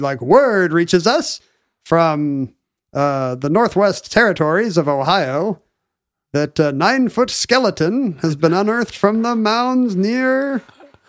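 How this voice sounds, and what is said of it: Mid-Atlantic radio broadcaster accent. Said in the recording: “mid Atlantic radio broadcasters' accent”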